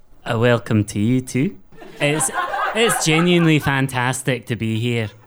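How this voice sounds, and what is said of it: Unexpected put-on accent. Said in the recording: “That accent was not one of them.”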